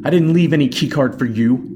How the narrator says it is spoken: Marsh shouts

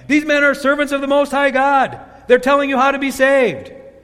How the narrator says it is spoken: shouting

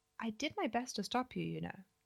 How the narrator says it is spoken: I said gently

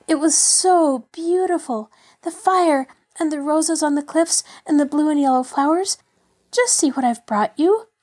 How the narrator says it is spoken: she called out before she had reached him

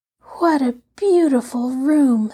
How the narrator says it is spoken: sighed Violet

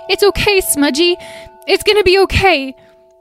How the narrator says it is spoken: all sobbing uncontrollably

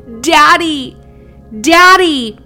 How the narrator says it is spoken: He immediately answered with a voice so booming and beautiful

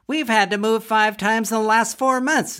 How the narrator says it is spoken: giggled Biddy L

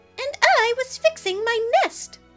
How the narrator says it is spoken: a little robin chirped

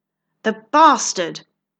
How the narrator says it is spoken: Count Tamsin exclaimed

